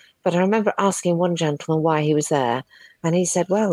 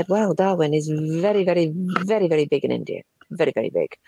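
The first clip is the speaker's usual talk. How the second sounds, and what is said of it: Imitated Indian accent, not very good. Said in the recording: “I don't do a very good impersonation of an Indian voice”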